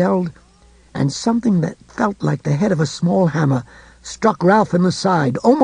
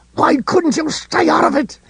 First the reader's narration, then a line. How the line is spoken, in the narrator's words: He snarled